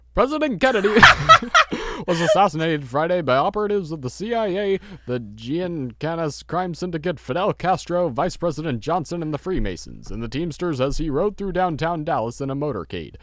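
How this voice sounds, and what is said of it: Old-fashioned announcer voice. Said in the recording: “read it in, like, the old announcer voice”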